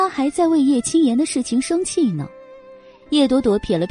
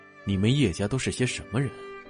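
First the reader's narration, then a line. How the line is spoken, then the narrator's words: Cold. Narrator (Chinese): 荣寒生冷冷的逆向他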